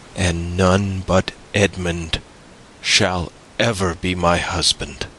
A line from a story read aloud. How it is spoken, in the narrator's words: the young girl calmly replied